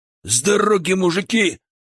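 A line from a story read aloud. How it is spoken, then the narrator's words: Shouted out. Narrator (Russian): выкрикнул Сансаныч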